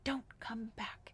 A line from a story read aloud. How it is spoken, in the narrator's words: it screamed